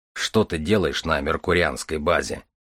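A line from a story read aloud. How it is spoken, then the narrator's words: Plain question. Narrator (Russian): спросил Железовский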